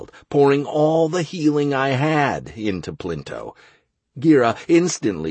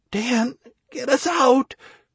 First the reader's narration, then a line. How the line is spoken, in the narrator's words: croaked Anastaria, crumpling to the ground